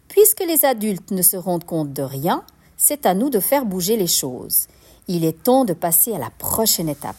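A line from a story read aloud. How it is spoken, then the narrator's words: Exclaimed. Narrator (French): s'exclame-t-elle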